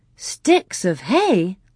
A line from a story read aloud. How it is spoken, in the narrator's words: Laura exclaimed